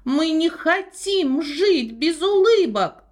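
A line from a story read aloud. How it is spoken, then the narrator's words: Shouted in unison. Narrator (Russian): закричали они хором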